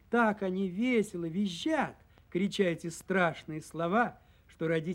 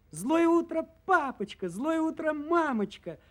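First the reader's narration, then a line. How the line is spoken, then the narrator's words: Joyful chorus of cubs. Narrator (Russian): радостно подхватывают волчата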